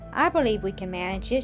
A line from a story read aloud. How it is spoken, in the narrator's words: she said presently